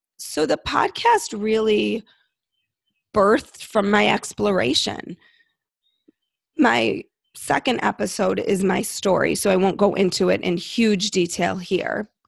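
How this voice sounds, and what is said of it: Hoarse, froggy voice. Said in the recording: “My voice sounds so froggy to me”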